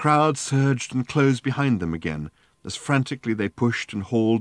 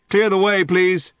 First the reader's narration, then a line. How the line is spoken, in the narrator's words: boomed a police megaphone